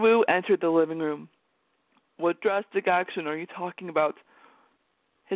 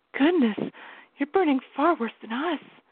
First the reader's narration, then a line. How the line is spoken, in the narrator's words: she whispered